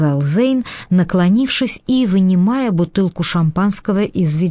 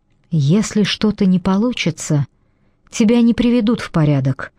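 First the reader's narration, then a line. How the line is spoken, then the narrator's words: Quiet. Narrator (Russian): тихо проговорила Телли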